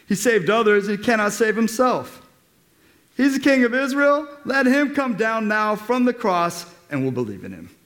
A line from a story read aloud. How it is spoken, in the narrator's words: the chief priests with the scribes and elders mocked him, saying